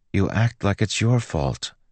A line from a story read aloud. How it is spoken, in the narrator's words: Joel said quietly